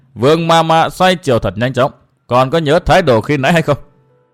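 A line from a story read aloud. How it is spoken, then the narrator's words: Sneering. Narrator (Vietnamese): Tô Bách Khôi cười khẩy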